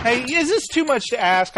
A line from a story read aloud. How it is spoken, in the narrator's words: I plead